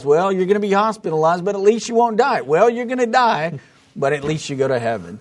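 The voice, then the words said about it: Put-on New York accent. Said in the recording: “you kind of got a New York accent along the way ... I started feeling like Fauci”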